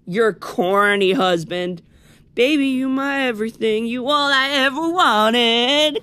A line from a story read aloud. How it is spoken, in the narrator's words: Khalil sings in a whiny voice